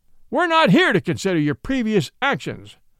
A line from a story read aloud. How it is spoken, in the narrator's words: bellowed Judge Whitberg